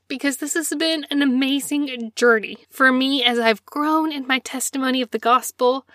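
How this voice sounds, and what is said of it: Teary, emotional voice. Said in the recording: “this is where I get teary”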